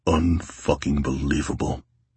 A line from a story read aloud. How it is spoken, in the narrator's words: Tate muttered